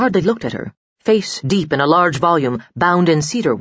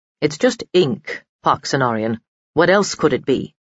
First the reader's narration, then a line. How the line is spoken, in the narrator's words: the sneer she thought she heard in his voice